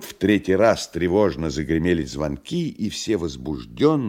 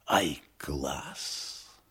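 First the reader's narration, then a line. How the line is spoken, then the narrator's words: Admiring whisper. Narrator (Russian): А гример восхищенно шепнул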